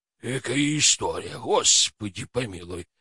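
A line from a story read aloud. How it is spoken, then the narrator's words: Guilty mumbling, coachman. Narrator (Russian): бормотал ямщик виноватым голосом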